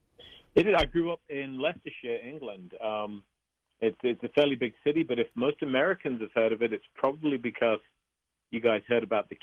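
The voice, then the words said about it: English accent. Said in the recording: “people can tell from his accent that Richard Estep is not originally from the greater Colorado metropolitan area ... Where did you grow up in England?”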